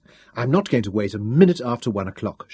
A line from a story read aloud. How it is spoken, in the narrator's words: she promised herself firmly